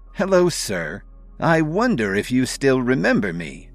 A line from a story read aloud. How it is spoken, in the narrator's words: Blair said warmly